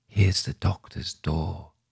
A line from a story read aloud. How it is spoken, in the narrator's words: she whispered